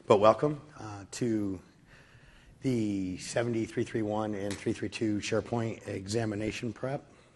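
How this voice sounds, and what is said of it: Hoarse, weakened voice. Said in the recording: “I lost my voice”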